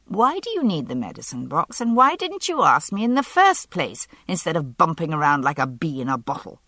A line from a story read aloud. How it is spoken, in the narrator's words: I said irritably